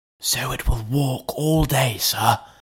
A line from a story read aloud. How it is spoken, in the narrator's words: whispered Poole